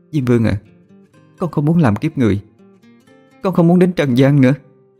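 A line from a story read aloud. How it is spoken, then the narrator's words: Kneeling soul sobbing. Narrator (Vietnamese): Linh hồn đang quỳ nghe thấy mình được đưa ra bến sông, liền đưa tay ôm mặt nức nở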